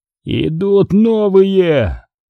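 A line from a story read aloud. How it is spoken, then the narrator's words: Hoarse rasp. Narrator (Russian): прохрипел он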